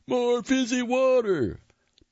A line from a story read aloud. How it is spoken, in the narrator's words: Finn, who shouted